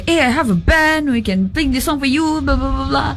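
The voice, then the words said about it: Imitates another person's voice. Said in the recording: “I didn't say it like that... I'm just imagining you... it was a terrible impression.”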